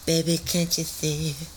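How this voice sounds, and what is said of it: Sung imitation of a pop singer. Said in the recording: “That was a good impression, bro. ... Brittany?”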